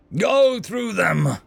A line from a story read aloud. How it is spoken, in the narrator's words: shouted